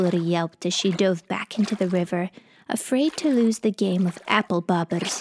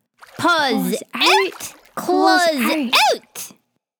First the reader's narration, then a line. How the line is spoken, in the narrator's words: the two friends screamed together